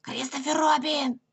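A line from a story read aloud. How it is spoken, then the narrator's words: Whispered shout. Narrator (Russian): крикнул он шепотом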